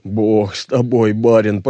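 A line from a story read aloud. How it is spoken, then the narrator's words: Grumbling. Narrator (Russian): проворчал Клим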